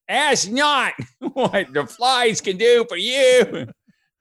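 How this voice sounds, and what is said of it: John F. Kennedy impression, Boston accent. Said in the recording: “It was more like a Bronx, you know, but it kind of has that John F. Kennedy sound.”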